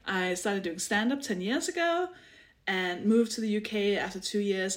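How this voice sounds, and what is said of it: Danish accent. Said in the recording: “I'm Danish. I just want to explain the accent because that might sound weird to people.”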